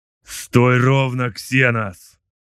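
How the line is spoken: Growl. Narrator (Russian): зарычал Сет

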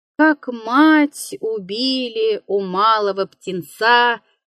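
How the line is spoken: Hoarse tenor singing outside. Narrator (Russian): пропел кто-то за окном сиплым тенором

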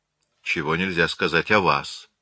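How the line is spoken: Dry retort. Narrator (Russian): сухо отпарировал Аркадиус

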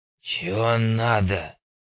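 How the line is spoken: Grumbled. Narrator (Russian): пробурчал тот

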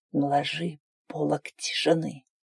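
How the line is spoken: Hoarse, breaking, jerky voice. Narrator (Russian): Прохрипел, голос его срывался, слова выходили толчками

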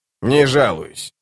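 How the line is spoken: Grumbling doll. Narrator (Russian): проворчала кукла

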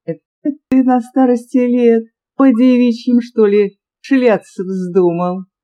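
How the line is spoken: Impulsive laughter. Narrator (Russian): порывисто рассмеялась она

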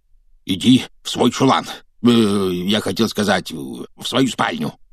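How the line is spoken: Hoarse rasp. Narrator (Russian): прохрипел он

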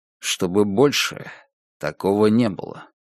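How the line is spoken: Plain. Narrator (Russian): сказал Альфред

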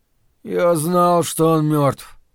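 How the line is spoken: Hoarse wheeze. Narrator (Russian): просипел Том

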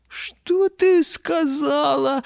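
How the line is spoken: Roaring laughter. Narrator (Russian): расхохотался лев

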